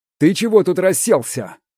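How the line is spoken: Displeased bark. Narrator (Russian): недовольно гаркнул малек

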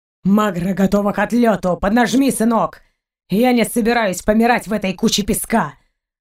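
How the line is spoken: Deep bass voice. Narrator (Russian): Пробасил Гайен

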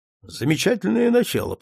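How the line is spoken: Muttered. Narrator (Russian): пробормотал

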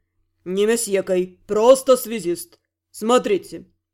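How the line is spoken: Pleased snort. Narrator (Russian): Довольно хмыкнула вольная сила

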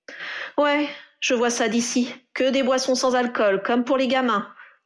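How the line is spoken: Grumbling. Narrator (French): grogna Harry

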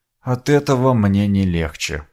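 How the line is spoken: Mutter. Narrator (Russian): пробормотал я

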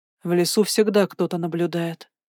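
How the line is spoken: Calm, not harsh. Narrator (Russian): ответил он спокойно, но не резко

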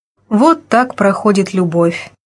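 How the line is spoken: Sighing. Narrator (Russian): вздохнула Алина Евгеньевна

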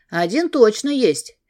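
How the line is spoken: Cheerful. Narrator (Russian): весело сказал

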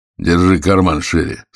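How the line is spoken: Plain. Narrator (Russian): сказал Ефимов

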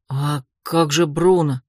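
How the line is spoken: Timid question. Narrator (Russian): робко спросил один из работников

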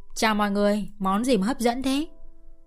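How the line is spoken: Raised voice. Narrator (Vietnamese): Cô cao giọng

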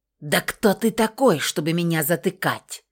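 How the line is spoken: Snake-like hiss. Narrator (Russian): переходя на почти змеиное шипение

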